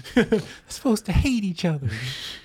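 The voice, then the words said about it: Imitates another person's voice. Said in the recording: “That's my Jim Cornette impression.”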